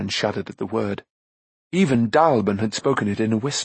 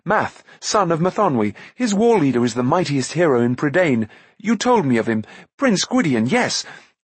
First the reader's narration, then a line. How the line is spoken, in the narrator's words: Taran went on eagerly